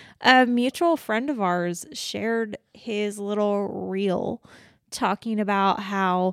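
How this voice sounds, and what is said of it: Usual voice. Nothing is said of it.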